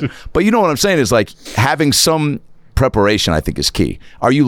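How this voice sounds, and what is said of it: Usual voice. Nothing is said of it.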